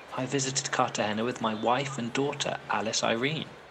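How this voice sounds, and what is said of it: English accent. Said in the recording (Spanish): “¿Escucharon ese acento? ... ¿Este asiento es de Inglaterra? ... ¡Sí!”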